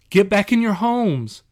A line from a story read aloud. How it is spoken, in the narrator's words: Levita yelled